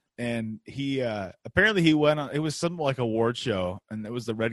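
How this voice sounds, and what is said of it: Usual voice. Nothing is said of it.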